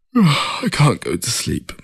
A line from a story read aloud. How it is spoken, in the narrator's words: he said through a yawn